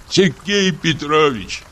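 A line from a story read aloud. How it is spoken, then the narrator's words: Crying voice. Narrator (Russian): проговорил Чур плачущим голосом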